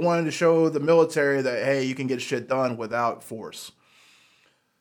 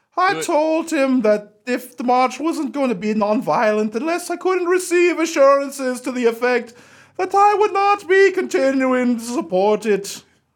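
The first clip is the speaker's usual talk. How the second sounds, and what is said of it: Bad put-on Irish accent. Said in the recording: “should I do a bad Irish voice? ... I got Miss Doubtfire pretty much.”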